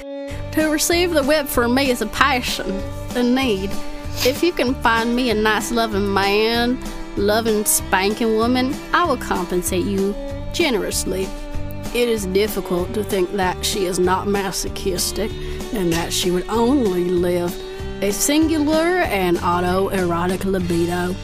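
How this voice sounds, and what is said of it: Put-on country accent. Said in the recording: “Let me do it in a country accent.”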